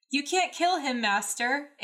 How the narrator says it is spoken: Anakin yelled desperately

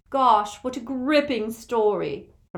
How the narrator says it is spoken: Hermione said in the lofty voice she adopted when wishing to wound

